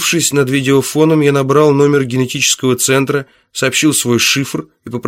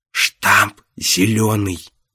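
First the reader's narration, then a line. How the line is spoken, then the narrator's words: Quiet. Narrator (Russian): тихо сказал Эдгар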